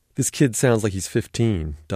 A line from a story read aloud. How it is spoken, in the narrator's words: Doug called out